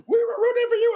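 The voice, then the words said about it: Imitates another person's voice. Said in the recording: “my Tyra Banks impression ... I could have sworn she was in the room”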